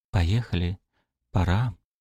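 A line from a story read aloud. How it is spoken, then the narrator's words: Whispering. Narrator (Russian): прошептала Алена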